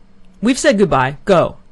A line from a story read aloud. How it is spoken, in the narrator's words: he suddenly shouted in a loud, angry voice